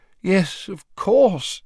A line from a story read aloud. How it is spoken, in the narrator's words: said Fudge, rubbing his eyes wearily